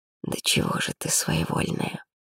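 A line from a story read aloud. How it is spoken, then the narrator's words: Quiet. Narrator (Russian): тихо проговорил Ар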